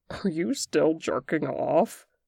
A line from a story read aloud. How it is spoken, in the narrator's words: Boston asked incredulously, as he laughed